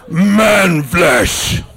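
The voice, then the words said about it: Growling orc monster voice. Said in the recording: “You want to hear my impression of a Uruk-hai?”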